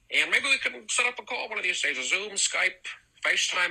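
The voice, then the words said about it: Folksy old-fashioned American drawl. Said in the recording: “this weird fucking Mayberry Cafe accent? ... What is this John Wayne shit?”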